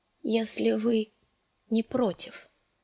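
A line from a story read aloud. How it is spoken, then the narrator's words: Weak voice. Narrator (Russian): договорила она слабым голосом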